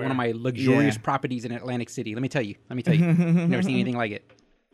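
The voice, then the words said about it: Imitates another person's voice. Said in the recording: “trying to do a Trump impression”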